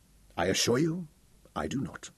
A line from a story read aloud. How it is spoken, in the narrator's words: responded Sir Francis quietly